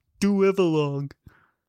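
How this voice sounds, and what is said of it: Imitates another person's voice. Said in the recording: “my Fred Wolf impression ... It's Tim's impression. The guy from Howard Stern”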